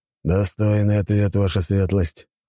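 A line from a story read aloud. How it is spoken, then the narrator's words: Amused grunt. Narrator (Russian): хмыкнул Зейд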